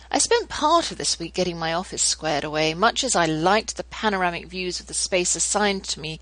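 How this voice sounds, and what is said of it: British English accent. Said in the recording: “at least you can hear my accent and pretend you're in some lovely manor house across the pond”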